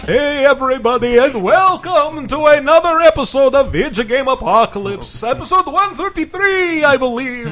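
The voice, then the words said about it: Spooky horror-host character voice. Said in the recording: “This Count Floyd impression is much easier to maintain if I wave my hands around.”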